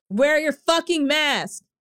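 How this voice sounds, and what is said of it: Yelling angrily. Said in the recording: “Sorry for yelling.”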